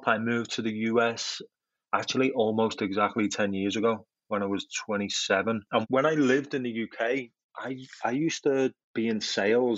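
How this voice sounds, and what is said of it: Liverpool English accent. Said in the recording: “as you can probably tell, I'm not a native of this country. The accent's a little bit different. I'm from Liverpool in England.”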